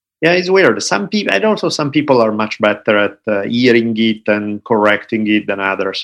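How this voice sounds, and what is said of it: Slight Italian accent. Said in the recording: “I just have a tad of an Italian accent ... my accent has never gone away ... Italian accent flows beautifully ... like a song almost. It's got this really nice tone to it”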